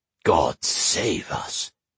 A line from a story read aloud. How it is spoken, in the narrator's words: Goggin murmured